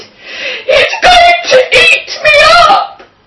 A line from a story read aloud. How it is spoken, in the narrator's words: cried